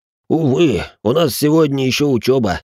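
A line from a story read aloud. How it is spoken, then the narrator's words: Regretful deep bass. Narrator (Russian): с сожалением пробасил инвалид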